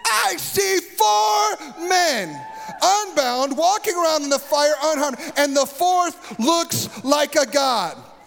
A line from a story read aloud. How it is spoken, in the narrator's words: Nebuchadnezzar shouted